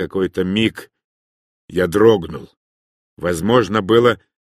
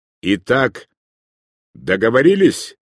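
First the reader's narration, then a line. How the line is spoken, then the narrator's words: Sharp bleating voice. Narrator (Russian): резко проблеял его голос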